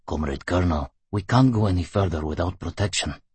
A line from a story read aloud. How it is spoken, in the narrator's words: He muttered apologetically